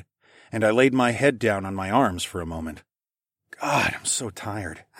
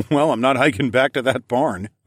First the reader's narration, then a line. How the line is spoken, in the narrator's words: I laughed